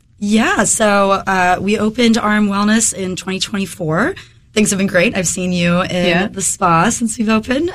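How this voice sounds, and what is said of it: Slightly hoarse voice. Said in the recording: “I'm getting over a head cold right now ... my voice is a little hoarse”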